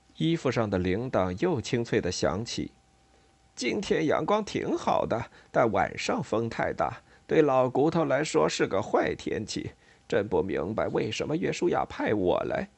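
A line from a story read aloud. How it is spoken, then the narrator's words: Trembling sigh. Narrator (Chinese): 桃儿颤抖地叹道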